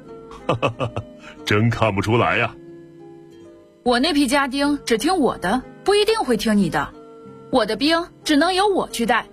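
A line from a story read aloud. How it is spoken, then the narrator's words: Laughing. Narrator (Chinese): 武丁笑着说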